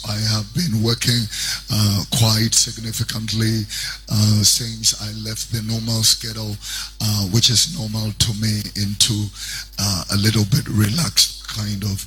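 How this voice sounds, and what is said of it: Strained, worn-out voice. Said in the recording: “Forgive my voice. ... it's been screaming here and there.”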